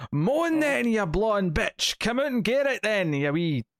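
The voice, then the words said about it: Put-on thick Scottish accent. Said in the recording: “I can do a pretty good Scottish accent ... a pretty good bad Scottish accent ... with like a thick Scottish accent”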